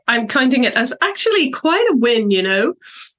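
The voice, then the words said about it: Nasal, congested voice. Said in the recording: “apologies for my nasal voice. I have a cold.”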